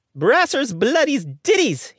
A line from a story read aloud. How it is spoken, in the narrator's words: he cried, more in surprise than anger